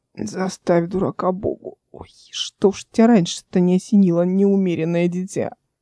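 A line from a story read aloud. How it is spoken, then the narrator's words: Hoarse, after coughing. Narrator (Russian): Эл прокашлялась и хрипло сказала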